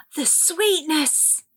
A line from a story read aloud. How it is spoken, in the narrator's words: Cassie cried